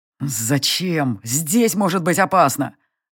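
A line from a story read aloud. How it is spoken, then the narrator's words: Growled. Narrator (Russian): Рыкнув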